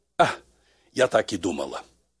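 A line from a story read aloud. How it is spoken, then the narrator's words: Said after deep sigh. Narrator (Russian): глубоко вздохнула и сказала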